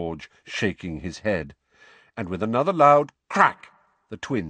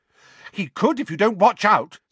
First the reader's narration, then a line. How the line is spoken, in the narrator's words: said Hermione angrily